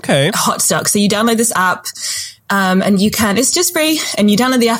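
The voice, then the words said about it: Breathless, excited speech. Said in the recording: “I'm like out of breath because I'm so excited. ... I'm out of breath, just excited for you.”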